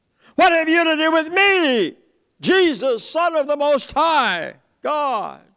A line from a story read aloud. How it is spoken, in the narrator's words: he yells